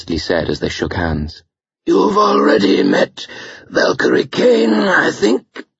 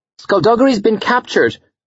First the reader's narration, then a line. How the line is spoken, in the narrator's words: Stephanie blurted out